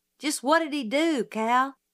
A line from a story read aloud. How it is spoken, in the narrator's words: Calpurnia sighed